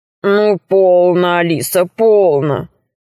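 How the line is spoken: Deep bass dragon voice. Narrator (Russian): сказал дракон басом

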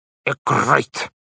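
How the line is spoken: Crisp clipped enunciation. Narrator (Russian): отчеканило Солнышко

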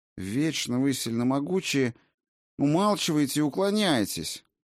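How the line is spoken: Disappointed grumbling. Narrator (Russian): проворчала Райна, не в силах скрыть разочарование

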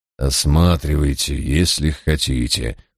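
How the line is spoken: Weary. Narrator (Russian): устало кивнул Мальверер

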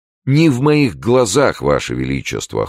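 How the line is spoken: Cold. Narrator (Russian): холодно Д'Артаньян

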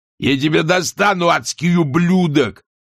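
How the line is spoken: Yelling. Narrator (Russian): вопил он

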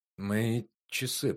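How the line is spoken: Muttering. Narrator (Russian): пробормотал Лэнгдон

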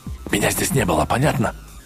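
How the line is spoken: Hissing. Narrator (Russian): прошипел

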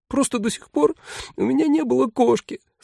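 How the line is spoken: Tearful. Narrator (Russian): сквозь слезы сказала она

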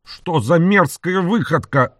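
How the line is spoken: Irritated shout. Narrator (Russian): раздраженно выкрикнул Билл

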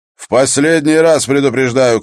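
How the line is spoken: Shout. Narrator (Russian): крикнул Воллер

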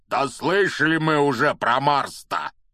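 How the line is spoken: Angry grumble. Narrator (Russian): сердито проворчал Хагрид

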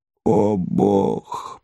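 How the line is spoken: Anxious groan. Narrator (Russian): простонал Левий, понимая, что он опаздывает

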